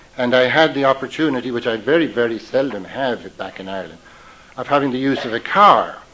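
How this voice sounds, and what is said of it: Irish brogue. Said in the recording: “I was born and raised where all the real alcoholics come from ... I go back to Ireland sometimes. I need to go back there to brush up on my brogue”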